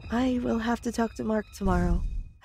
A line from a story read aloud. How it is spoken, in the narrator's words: said sadly